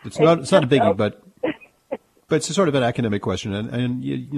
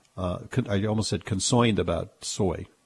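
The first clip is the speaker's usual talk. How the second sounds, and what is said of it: New York accent pronunciation. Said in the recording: “I'm just lapsing into my New York accent there”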